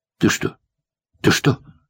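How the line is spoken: Frightened question. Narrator (Russian): спросила она испуганно

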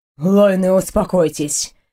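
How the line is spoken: Calm. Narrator (Russian): спокойно произнес Эйнер

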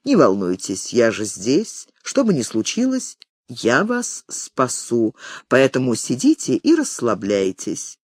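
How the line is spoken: Soft. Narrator (Russian): Саймон сказал мягко

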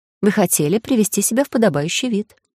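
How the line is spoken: Dry. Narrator (Russian): сухо проговорила

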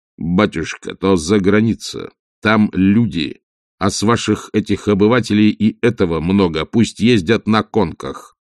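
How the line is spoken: Grunt, crisp angry voice. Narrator (Russian): Он как-то особенно крякнул, как протодиакон перед или после рюмки водки, и отчетливым злым голосом отчеканил

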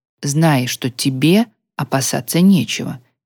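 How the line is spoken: Quiet. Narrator (Russian): тихо произнесла она

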